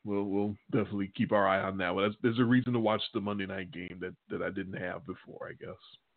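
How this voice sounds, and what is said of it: Hoarse, failing voice. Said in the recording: “my voice is trying to completely go”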